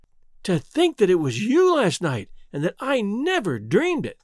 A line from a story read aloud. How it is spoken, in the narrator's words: exclaimed Theodora